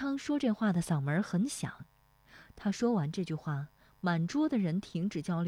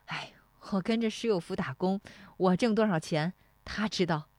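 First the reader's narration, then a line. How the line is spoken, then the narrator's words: Said laughing. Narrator (Chinese): 石立华笑说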